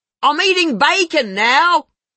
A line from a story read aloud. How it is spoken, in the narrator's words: She yells in between mouthfuls